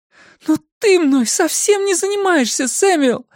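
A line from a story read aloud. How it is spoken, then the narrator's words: Exclaiming. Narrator (Russian): воскликнула она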